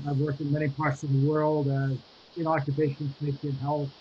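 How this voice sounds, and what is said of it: American Boston accent. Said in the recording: “obviously, from my accent, I am American and Bostonian.”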